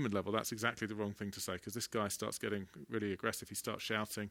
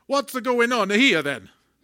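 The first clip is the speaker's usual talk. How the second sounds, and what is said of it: Attempted Italian accent. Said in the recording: “He's got an Italian accent. And I could do my best, but English people are not very good at Italian accents, so I'll have a go, but you'll have to forgive me.”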